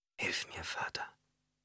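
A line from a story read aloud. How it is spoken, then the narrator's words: Whispered. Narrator (German): flüsterte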